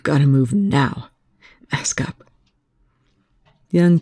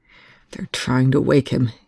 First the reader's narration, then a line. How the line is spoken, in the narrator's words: Young said through gritted teeth